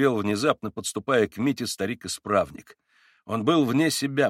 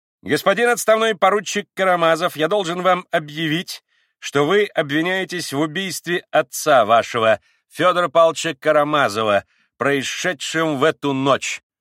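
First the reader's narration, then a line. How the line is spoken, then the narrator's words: Firm, loud, solemn. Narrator (Russian): твердо, громко и важно произнес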